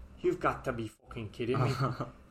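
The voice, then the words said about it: Bad put-on Irish accent. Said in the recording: “this is a bad Irish accent”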